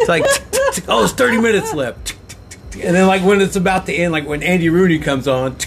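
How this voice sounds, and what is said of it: Usual voice. Nothing is said of it.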